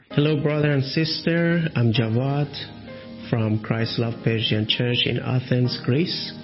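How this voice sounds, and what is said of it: Slight foreign accent, hard to follow. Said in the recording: “his little accent, I know it's difficult”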